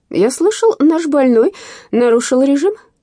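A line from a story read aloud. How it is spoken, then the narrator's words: Cheerful. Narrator (Russian): весело произнес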